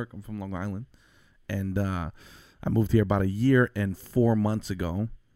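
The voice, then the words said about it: Noticeable regional accent. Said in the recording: “You got an accent.”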